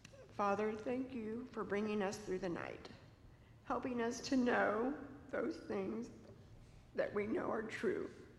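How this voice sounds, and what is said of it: Weak, feeble voice. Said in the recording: “in a weak voice”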